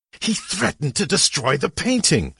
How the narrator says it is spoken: snarled

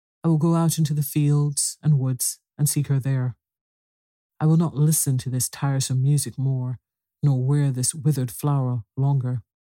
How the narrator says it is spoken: she turned sadly from them all, saying

